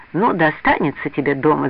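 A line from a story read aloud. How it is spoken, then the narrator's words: Laughing. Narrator (Russian): засмеялся Тишин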